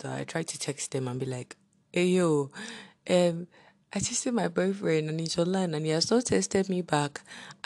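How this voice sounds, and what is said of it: Deep just-woke-up voice. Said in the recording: “my voice is deep. I woke up like a few minutes ago.”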